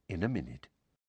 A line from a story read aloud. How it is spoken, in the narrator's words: Lupin said quietly